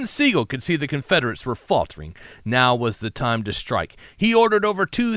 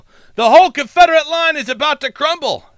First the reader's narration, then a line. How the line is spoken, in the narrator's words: heard someone yell